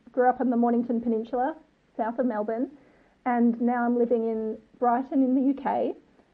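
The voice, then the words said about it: Australian accent. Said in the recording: “I'm from Australia, as you can tell from my accent”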